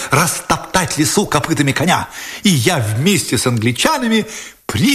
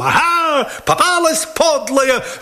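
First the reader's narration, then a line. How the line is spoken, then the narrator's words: Yelled. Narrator (Russian): завопил я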